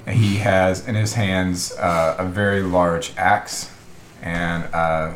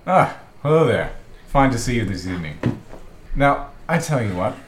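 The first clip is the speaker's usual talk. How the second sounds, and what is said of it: Character voice speaking very fast. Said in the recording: “He's talking too fast.”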